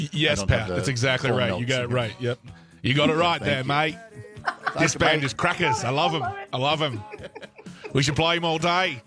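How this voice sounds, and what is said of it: Good put-on Australian accent. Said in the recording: “such a good Aussie accent”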